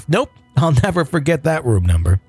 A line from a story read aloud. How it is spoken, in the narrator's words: The supervisor laughed